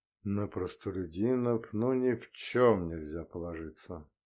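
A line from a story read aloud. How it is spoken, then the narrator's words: Soft sigh. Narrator (Russian): император тихо вздохнул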